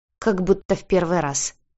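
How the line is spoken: Cat snorting. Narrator (Russian): фыркнула кошка

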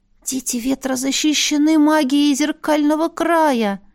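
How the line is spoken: Hoarse wheeze. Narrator (Russian): просипела я

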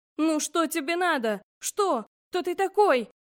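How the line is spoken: Screaming. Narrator (Russian): я орала в пламя

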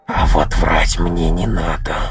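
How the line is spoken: Doll's hiss. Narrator (Russian): прошипела кукла

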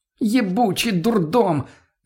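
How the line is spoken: Shouted. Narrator (Russian): Закричала Лена

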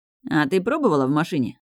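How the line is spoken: Loud teasing growl. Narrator (Russian): брошенной достаточно громко и с дразняще рычащими нотками

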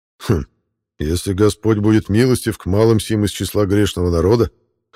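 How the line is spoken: Admiral's skeptical hum. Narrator (Russian): хмыкнул адмирал Тирпиц

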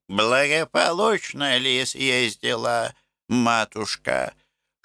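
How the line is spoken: Toothless, curious mumble. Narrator (Russian): шамкала Пульхерия, в которой женское любопытство вечно враждовало с иноческою добродетелью

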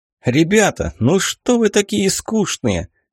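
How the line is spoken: Cheerful smiling question. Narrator (Russian): весело улыбаясь, спросил

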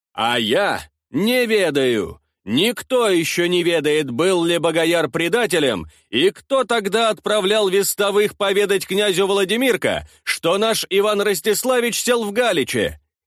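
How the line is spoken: Almost shouted. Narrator (Russian): чуть не выкрикнул Мирон

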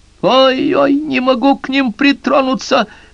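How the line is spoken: Shrieked. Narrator (Russian): взвизгнула женщина

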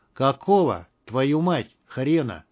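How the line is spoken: Slow, clipped, menacing. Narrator (Russian): Медленно чеканя каждое слово, проговорил наемник

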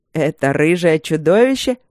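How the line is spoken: Snide question. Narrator (Russian): ехидно спросил фон Сьедентент

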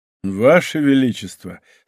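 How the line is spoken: Laughing. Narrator (Russian): сказал де ля Мельере, смеясь

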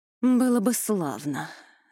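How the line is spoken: Sighing. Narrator (Russian): вздохнула королева

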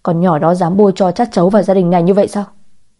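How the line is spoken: Furious, lips twitching. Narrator (Vietnamese): Ông ta tức giận tới nỗi khóe môi dần dần liên hồi

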